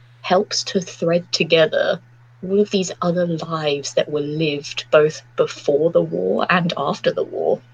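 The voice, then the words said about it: Emotional voice, losing her voice. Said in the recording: “I'm losing my voice, I'm getting so emotional”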